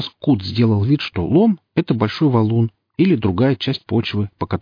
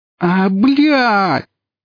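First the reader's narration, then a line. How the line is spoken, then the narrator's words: Howling in frustration. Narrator (Russian): взвыл Лом, которого псы снова игнорировали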